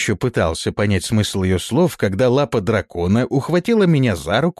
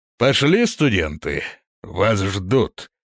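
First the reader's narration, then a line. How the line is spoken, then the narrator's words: Said pompously. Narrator (Russian): важно произнес он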